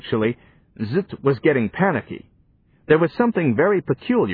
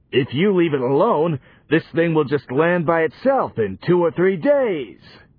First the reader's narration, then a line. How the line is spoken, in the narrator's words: howled Zut